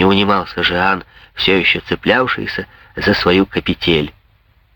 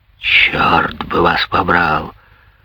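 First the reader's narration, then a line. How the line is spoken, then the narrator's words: Growling. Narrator (Russian): прорычал Андри Мюнье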